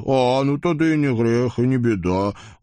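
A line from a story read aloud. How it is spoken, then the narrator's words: Confident snort. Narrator (Russian): уверенно хмыкнул Вакула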